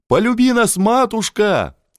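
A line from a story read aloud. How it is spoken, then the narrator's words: Loud wailing yell. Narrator (Russian): вопил Ванька Булгаков, секретарь преображенский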